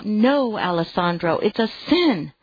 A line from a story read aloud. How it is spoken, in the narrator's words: She cried out